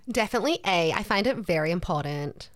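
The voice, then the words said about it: Badly done put-on accent. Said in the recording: “Terrible accent from me.”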